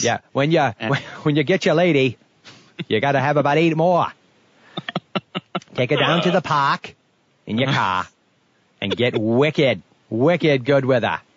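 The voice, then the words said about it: Put-on Boston accent, Kennedy-style. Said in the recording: “that was a great Boston accent. Don't know so much if it came to the Kennedy”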